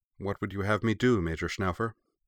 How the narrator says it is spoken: asked calmly

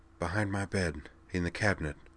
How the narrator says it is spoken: Mac whispered

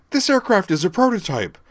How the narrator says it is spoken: Terror sputtered, knowing she was talking nonsense, but unable for the moment to stop herself

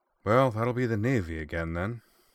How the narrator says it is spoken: said Corwin with a resigned sigh

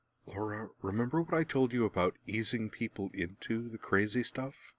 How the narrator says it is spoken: Merwin muttered

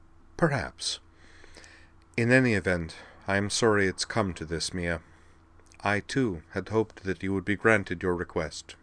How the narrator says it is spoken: Delenn permitted herself a very small smile and said dryly

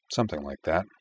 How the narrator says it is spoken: Kosue replied, her tone subdued

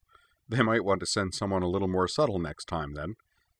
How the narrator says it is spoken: she said

